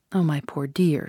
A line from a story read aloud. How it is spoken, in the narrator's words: she said, in the first soft tones which had fallen from her in my hearing